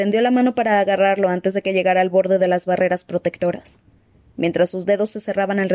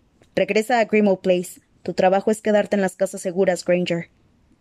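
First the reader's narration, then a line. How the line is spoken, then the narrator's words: Growling. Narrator (Spanish): le gruñó Kingsley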